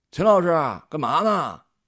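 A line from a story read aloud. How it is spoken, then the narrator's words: Calling out. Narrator (Chinese): 他喊了一句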